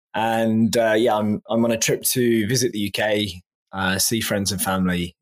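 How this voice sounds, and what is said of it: English accent. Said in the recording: “I'm originally from England, as your listeners can probably tell from my accent.”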